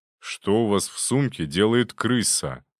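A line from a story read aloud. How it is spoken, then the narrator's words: Plain. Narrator (Russian): спросил он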